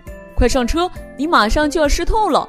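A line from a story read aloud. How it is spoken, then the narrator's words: Loud shout. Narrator (Chinese): 他高声喊道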